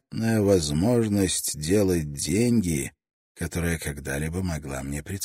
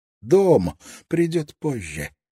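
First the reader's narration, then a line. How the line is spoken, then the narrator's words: Joyful, to himself. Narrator (Russian): радостно пообещал он себе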